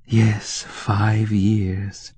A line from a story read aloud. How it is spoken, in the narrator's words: Tanya sighed